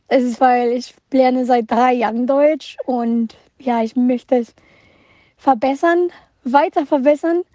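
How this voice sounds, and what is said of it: Slight Mexican accent in German. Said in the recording (German): “Deutsch ist nicht meine Muttersprache. Deutsch ist meine dritte Sprache. Vielleicht hört ihr ein bisschen Akzent, wenn ich rede ... ich komme aus Mexiko”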